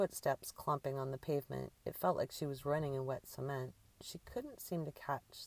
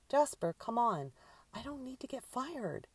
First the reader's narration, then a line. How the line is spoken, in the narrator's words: Drew shouted at the cat